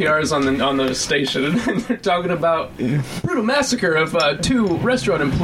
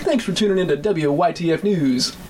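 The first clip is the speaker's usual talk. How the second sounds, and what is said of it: Radio DJ announcer voice. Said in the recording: “I want to hear this ... DJ radio voice.”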